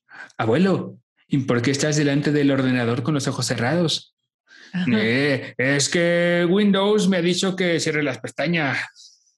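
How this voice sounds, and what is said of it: Exaggerated Spain Spanish accent. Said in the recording (Spanish): “lo, hice con acento feo a español porque sentí que era como súper español”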